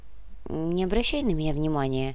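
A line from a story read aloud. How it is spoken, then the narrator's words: Muttered after a pause. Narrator (Russian): После паузы буркнула брюнетка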